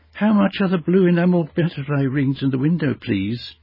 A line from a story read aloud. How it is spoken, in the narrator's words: she asked Miss Jukes in a timid voice